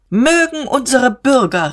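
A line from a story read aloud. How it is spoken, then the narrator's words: Calling out. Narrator (German): rief Diederich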